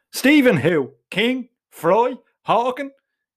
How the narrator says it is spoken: He bursts into a guffaw of laughter

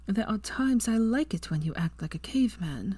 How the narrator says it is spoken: moaned

